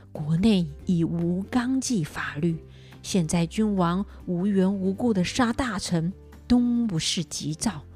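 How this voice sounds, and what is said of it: Quiet, hushed speech. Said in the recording (Chinese): “小声的说”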